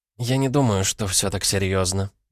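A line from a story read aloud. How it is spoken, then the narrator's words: Muttered. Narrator (Russian): пробормотала Варвара Ильинична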